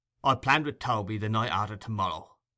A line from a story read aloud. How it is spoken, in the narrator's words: rejoined Sikes in a surly voice